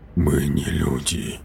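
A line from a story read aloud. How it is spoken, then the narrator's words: Whisper. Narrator (Russian): прошептал он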